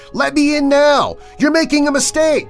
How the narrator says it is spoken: The kid kept screaming

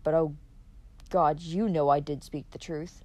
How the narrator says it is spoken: she muttered

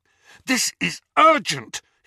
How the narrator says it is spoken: he said fiercely

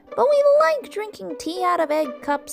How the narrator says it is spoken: they cried

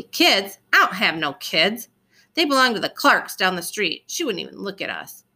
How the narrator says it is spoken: She said loudly

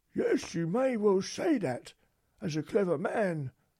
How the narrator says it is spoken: exclaimed the field mouse

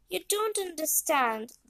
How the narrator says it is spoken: Benny replied

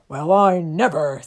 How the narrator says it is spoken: said the large and growly bear to himself

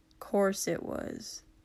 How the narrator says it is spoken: Katsuki mumbled

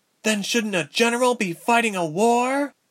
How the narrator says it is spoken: Ilse bellowed back

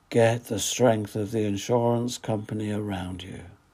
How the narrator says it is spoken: The voiceover said in a dreamy voice

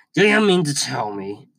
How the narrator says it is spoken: he growled at Dursleys

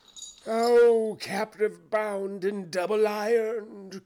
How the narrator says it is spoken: cried the phantom

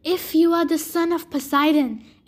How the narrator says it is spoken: Echidna hissed

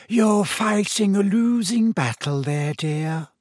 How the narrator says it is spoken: said his mirror in a wheezy voice

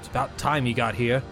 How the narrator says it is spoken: sternly

